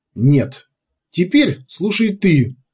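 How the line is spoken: Sharp reply. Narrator (Russian): резко ответил Кумар

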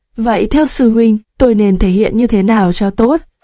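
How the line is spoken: Smiling question. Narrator (Vietnamese): Hắn mỉm cười hỏi

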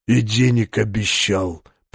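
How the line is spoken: Almost tender hiss. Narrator (Russian): почти ласково прошипел Двоеликий

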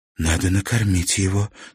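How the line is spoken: Quiet, from next room. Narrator (Russian): тихо сказала большая женщина в соседней комнате

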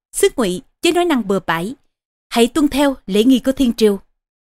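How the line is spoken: Stern. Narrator (Vietnamese): Ngự sử nghiêm giọng nói

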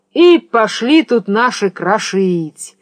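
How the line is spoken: Sing-song drawl. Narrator (Russian): нараспев протянул Ростислав

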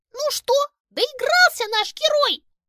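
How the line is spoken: Squeaky hamster, not snide. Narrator (Russian): пропищал хомяк, но в его голосе совсем не было привычной вредности

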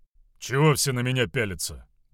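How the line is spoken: Grumbling mutter. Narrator (Russian): буркнул он

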